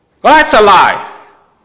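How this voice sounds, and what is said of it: Shouting. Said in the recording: “I'm sorry for shouting.”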